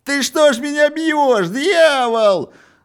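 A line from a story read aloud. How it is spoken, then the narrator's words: Yelling in pain while falling. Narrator (Russian): завопил, падая, тот красный, который получил не предназначавшийся ему удар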